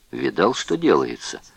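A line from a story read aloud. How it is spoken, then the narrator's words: Whisper. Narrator (Russian): шепнул Левинский Вернеру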